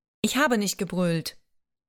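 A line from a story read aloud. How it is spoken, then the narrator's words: Sighing. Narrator (German): seufzte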